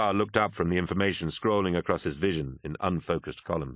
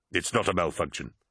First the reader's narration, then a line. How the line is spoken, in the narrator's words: replied Turnit sharply